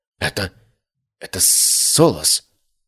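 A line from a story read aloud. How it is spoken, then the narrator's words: Trembling whisper. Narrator (Russian): прошептал дрожащим голосом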